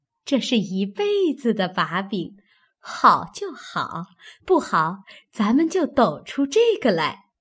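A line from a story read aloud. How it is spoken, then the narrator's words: Laughing. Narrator (Chinese): 平儿笑道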